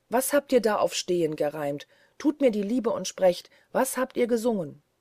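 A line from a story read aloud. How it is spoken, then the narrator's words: Calling out. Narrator (German): rief er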